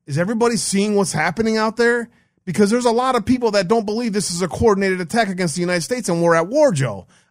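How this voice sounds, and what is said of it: Raised, shouting voice. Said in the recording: “I'm not just raising my voice for the hell of it.”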